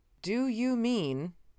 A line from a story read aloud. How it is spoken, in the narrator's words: I said slowly, trying to understand what he had babbled forth